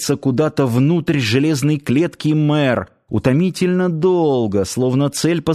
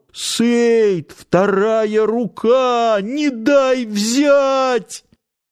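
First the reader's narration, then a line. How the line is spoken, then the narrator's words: Desperate shout. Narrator (Russian): В отчаянии он закричал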